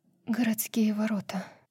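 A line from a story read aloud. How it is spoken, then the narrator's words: Breathed out. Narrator (Russian): выдохнула Брайс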